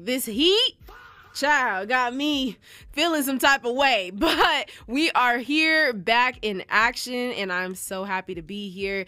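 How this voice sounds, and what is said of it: Slightly congested voice. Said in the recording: “my voice is still a little congested because your girl low-key got sick”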